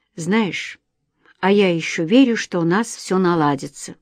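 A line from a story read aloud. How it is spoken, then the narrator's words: Quiet. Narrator (Russian): тихо произнес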